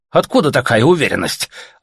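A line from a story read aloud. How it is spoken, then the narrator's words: Offended question. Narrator (Russian): обиженно спросили у него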